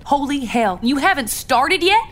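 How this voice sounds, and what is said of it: Loud, raised voice. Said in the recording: “Lower your voice”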